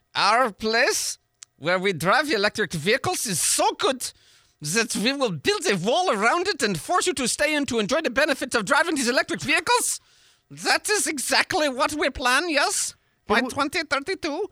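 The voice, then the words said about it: Put-on accent. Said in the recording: “that accent? That was wonderful.”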